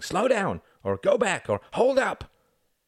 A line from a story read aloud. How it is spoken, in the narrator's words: A couple of men turned at the front of the crowd, shouting